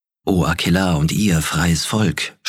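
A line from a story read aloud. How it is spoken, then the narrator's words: Purring. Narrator (German): schnurrte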